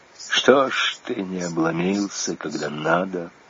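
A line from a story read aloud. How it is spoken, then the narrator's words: Quiet, to himself. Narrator (Russian): отчим Людочки тихо для себя молвил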